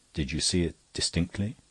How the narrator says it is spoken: the barrister said in a lower voice, which seemed at once sympathetic and creepy

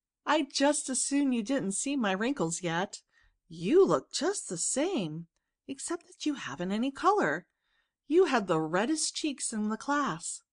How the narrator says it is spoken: laughed Anna

